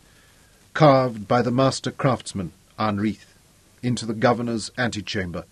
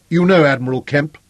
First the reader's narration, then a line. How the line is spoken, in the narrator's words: said the aide-de-camp